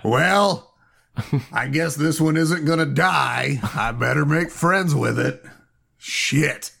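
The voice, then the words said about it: Imitates another person's voice. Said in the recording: “my but impression of uh, you, Pat ... It is spot on”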